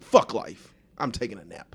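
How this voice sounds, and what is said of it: Imitates another person's voice. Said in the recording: “That was a great impression of”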